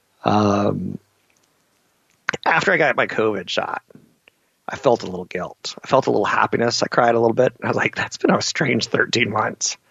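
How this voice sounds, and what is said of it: Emotional, choked-up voice. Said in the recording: “You can hear me get emotional right now.”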